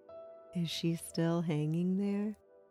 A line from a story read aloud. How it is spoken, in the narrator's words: Tom chuckled at the idea